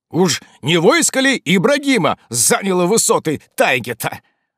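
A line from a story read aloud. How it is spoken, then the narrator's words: Sailor shouting. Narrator (Russian): закричал другой моряк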